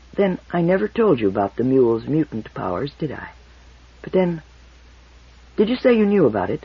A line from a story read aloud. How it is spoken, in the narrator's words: He said more quietly